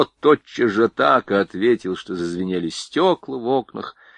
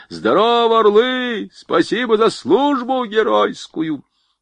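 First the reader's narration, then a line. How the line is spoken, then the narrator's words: Shouting at full lungs, running. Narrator (Russian): на бегу закричал во всю силу своих легких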